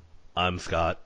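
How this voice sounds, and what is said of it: Flat emotionless underselling robot voice. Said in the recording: “you're underselling ... That was my comedy robot voice. ... the underselling comedy robot ... I lack emotions”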